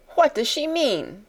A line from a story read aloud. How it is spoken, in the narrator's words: cried Miss Minchin to Miss Amelia